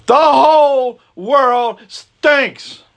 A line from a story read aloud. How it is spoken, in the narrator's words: he shouted as loud as he could